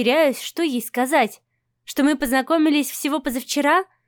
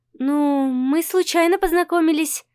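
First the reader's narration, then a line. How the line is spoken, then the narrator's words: Uncertain. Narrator (Russian): начинаю я неуверенно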